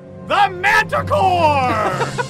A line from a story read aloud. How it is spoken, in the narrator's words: you hear the manticore shout